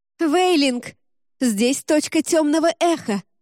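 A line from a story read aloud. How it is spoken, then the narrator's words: Sudden shout. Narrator (Russian): вдруг закричала Джема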